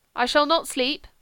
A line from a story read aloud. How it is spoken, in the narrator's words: he said